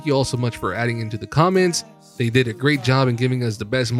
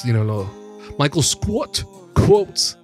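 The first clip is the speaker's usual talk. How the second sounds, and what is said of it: Mock Brooklyn accent. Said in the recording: “You did it with like a Brooklyn accent.”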